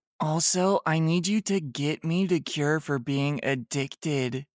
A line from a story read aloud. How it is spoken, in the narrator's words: she said sadly